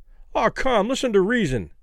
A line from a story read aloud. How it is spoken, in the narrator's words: Kelly pleaded